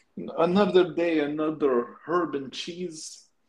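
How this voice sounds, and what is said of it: Put-on Ukrainian accent. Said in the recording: “I just went into a Ukrainian accent for some reason.”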